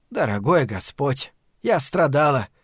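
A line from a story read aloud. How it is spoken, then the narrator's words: Gloomy exclamation. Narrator (Russian): мрачно воскликнула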